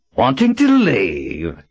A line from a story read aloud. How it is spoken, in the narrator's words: Marlin asked in the grating voice